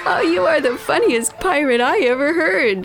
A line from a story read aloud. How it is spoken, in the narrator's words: laughed Pirate Frida